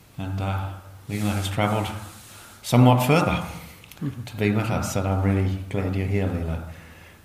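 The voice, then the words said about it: Foreign accent. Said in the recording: “I started my journey on the other side of the world ... you can probably tell from my accent”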